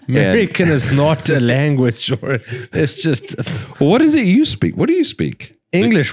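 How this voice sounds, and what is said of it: Scottish accent. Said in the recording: “your accent fucks me up. ... We're fucking Scottish.”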